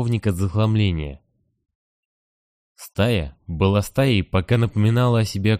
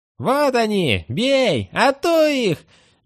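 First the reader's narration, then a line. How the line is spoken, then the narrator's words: Boys shrieking. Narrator (Russian): визжали мальчишки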